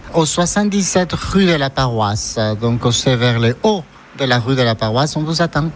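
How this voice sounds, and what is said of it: Charming regional French accent. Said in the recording (French): “cet accent charmant”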